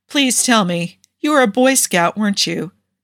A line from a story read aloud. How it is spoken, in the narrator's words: He couldn't help but laugh